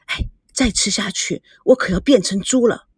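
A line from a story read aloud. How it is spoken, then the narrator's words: Quiet, affectionate. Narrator (Chinese): 孙娜小声的说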